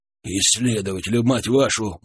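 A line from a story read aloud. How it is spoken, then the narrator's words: Gruff grumble. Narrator (Russian): буркнул мужчина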